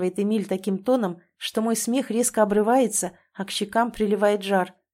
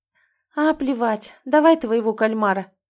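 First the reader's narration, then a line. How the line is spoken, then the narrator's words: Shaky voice. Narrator (Russian): сглотнув дрогнувшим голосом, говорю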